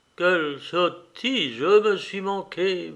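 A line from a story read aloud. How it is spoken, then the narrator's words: Murmured. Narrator (French): murmura-t-il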